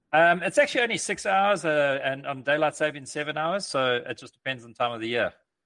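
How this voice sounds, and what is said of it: South African accent. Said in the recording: “we could tell by your accent that you weren't from the coast of California, but South Africa”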